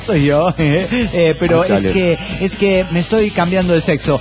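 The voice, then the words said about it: Disguised man's voice. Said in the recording (Spanish): “voz de hombre disimulada”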